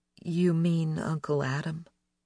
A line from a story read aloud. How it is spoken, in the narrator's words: asked as gently as I could, feeling at once alarmed and a little foolish